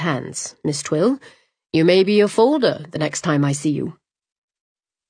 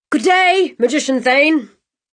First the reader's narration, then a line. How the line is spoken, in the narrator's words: Bennett yelled after him